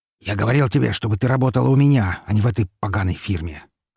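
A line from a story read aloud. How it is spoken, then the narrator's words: Angry father. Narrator (Russian): Зло произнес ее отец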